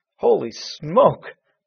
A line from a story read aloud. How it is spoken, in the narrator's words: Matt exclaimed